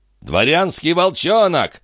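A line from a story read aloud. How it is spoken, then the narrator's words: Yelling. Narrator (Russian): завопил Тетрель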